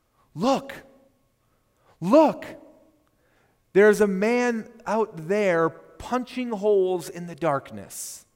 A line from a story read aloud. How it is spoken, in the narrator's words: young Robert with childish fascination exclaim